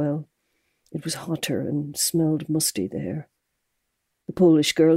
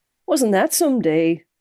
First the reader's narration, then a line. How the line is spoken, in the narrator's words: said brightly